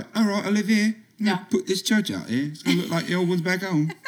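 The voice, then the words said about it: Poor put-on English accent. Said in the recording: “who came from England and was like ... That was a terrible impression.”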